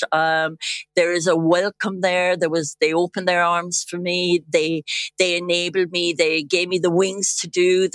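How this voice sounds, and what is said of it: Irish accent. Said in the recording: “my Irish accent, you know, why would I lose it? ... hear it. I still have it.”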